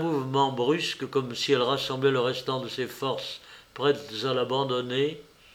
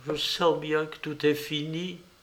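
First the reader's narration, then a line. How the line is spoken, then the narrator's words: Overwhelmed murmur. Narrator (French): Celle-ci murmurait, accablée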